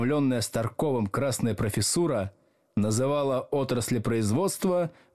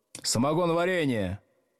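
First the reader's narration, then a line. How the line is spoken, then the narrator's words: Shout. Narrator (Russian): крикнул с первой парты Старков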